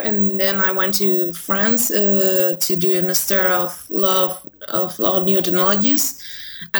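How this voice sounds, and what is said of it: American English accent. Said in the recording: “you've got such an American accent ... it's very beautiful”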